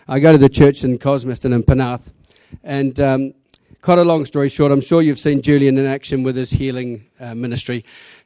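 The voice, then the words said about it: New Zealand accent. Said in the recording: “Before you try to pick the accent, I'm from New Zealand.”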